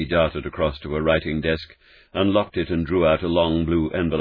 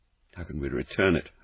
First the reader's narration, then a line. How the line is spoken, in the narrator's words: Holmes muttered